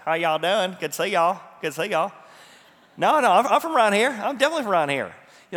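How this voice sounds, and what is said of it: Put-on rural American Southern accent. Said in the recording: “they had a bit of a rural accent. So it'd be like in our nation, it'd be like somebody with a southern accent.”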